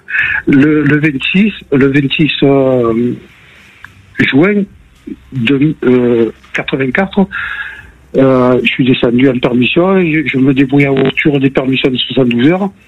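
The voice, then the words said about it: Marseille (southern French) accent. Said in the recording (French): “on avait entendu à l'accent”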